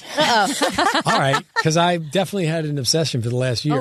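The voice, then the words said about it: New Jersey accent. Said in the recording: “your accent makes me feel right at home ... New Jersey accent makes me feel very like warm and cozy”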